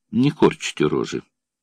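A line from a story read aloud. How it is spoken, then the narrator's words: Flat colorless tone. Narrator (Russian): бесцветным тоном сказал Суменков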